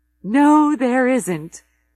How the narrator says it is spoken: Zoe says, laughing

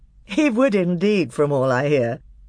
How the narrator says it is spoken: said Peter with a laugh

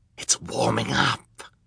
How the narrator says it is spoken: Count Olaf said in a delighted wheeze

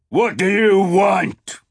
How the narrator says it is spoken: He roared in English

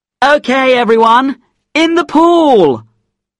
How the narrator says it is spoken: he suddenly shouted

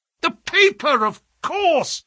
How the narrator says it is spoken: yelled Holmes, in a paroxysm of excitement

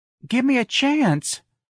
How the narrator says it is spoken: Darlene pleaded

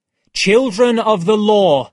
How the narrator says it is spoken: I said loudly

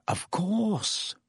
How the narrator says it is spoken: Lupin breathed

